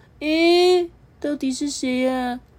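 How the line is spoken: Sleepy, just woken. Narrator (Chinese): 黄纽扣揉着眼睛说

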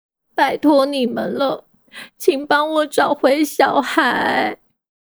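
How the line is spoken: Mother tearfully pleading. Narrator (Chinese): 无尾熊妈妈对福奇哭诉着

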